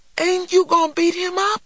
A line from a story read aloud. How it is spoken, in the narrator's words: cried a disappointed little man